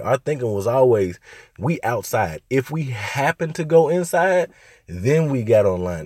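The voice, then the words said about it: Strained, hoarse voice from illness. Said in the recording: “If y'all hear me talking a little funny, I'm kind of losing my voice. ... I'm a little sick.”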